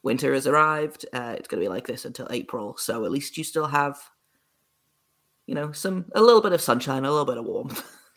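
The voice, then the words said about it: British accent. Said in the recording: “I'm over in the UK, if you can't tell by my accent”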